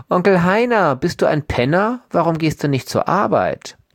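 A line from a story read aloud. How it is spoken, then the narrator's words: Mocking childlike voice. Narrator (German): Er hebt seine Stimme auf Kinderniveau, sagt er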